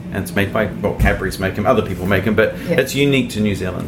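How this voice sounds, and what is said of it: New Zealand accent. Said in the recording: “I had an accent and I'm from New Zealand”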